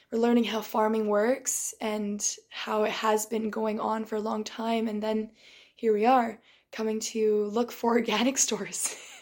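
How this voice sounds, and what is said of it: Tired, strained, fading voice. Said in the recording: “I'm losing my voice. I was screaming so much yesterday ... So my voice is very tired.”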